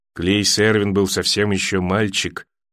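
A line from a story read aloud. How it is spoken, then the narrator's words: Sad remark. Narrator (Russian): грустно заметила Кейтлин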